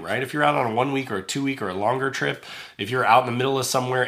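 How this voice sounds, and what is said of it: Sick-sounding, altered voice. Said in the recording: “my voice sounds a little different. And that's because I feel like crap. I am sick”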